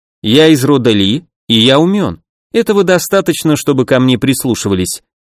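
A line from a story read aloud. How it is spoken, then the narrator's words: Calm reply. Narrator (Russian): спокойно ответил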